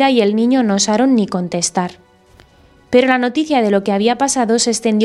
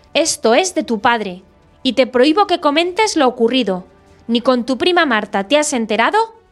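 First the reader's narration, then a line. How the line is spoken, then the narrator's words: Yelling violently. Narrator (Spanish): vociferaba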